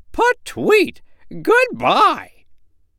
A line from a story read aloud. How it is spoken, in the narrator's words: she cried